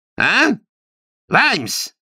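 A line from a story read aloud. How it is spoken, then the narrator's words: Snort. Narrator (Russian): Растлен фыркнул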